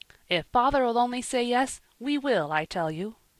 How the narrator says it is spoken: he responded eagerly

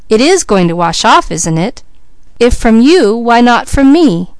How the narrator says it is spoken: cried Leslie

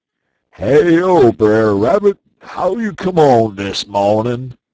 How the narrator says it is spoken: he holler out

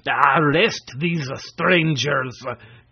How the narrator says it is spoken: commanded Quitoful, in a voice like a roar

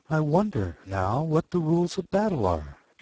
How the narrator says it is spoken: said to herself

